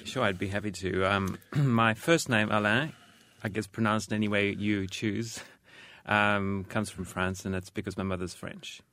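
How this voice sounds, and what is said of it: Hard-to-place accent. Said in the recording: “an accent that's difficult to pinpoint”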